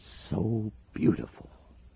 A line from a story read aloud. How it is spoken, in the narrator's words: whispered